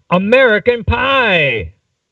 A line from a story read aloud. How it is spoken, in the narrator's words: shouted